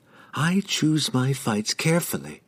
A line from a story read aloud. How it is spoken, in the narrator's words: she whispered to the emptiness of the room, regaining a measure of her pride